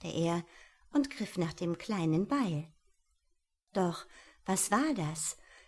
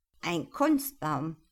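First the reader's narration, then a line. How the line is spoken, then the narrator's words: Horrified growl. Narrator (German): knurrte entsetzt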